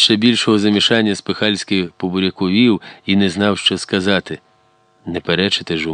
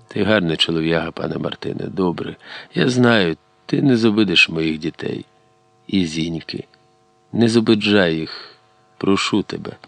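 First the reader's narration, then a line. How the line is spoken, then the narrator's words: Very quiet after breath. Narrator (Ukrainian): Іваник передихнув і зовсім тихо, так, що чули тільки ті, хто схилився над возом, сказав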